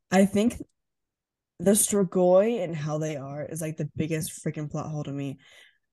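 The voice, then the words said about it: Groggy morning voice. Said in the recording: “my voice is so different... this is my morning voice. I just woke up 10 minutes ago.”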